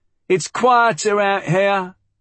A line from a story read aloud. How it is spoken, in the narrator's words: she shouted